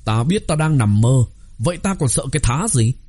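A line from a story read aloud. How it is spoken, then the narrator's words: Laughing loudly. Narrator (Vietnamese): phá lên cười lớn, cười nói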